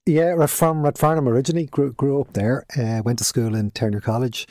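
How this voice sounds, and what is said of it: Irish Dublin accent. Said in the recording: “That's obviously not a Cork accent we hear. Dublin accent, I'm guessing.”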